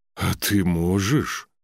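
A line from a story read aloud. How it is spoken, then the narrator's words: Breathed out. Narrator (Russian): выдохнул Торгни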